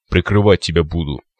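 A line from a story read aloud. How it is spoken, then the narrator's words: Cyclops snorting. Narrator (Russian): хмыкнул циклоп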